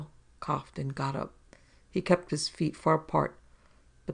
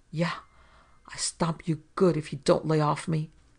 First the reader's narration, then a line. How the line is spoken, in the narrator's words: Andopoulos snarled